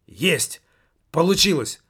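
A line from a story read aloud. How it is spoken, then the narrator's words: Exclamation. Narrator (Russian): воскликнул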